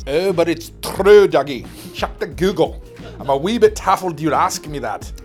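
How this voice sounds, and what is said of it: Put-on Scottish accent, not very good. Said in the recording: “I need to work on my Scottish accent ... says we need a little work.”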